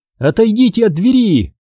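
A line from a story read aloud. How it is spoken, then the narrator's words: Shout. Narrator (Russian): крикнула она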